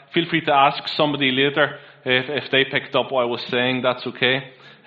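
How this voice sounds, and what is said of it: Mixed Northern Irish accent. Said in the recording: “You may already be picking up from my accent that I'm originally from Northern Ireland ... I've kept some of the accent. So my accent is a wee bit all over the place”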